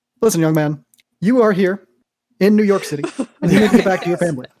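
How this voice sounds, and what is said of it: Imitates another person's voice. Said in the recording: “That's not Barack. Oh God, that was a terrible impression. ... That was great. ... That wasn't awful.”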